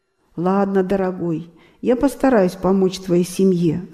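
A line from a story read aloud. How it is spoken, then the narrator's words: Plain. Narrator (Russian): сказал Рамакришна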